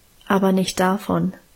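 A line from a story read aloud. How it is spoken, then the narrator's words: Calm answer. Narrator (German): antwortete Guste ruhig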